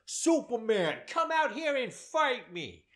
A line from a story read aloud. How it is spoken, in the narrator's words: repeatedly yelling